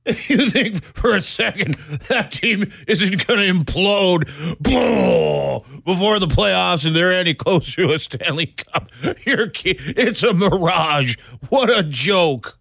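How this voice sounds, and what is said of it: Impression of co-host George. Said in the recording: “my George impression”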